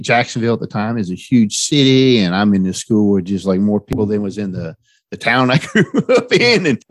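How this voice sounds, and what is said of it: West Virginia accent. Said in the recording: “I moved to Florida briefly, well, twice from West Virginia ... I stuck out because of my accent. It was like obvious, I'm not from around there”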